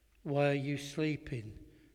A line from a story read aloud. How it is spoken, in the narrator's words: he asked them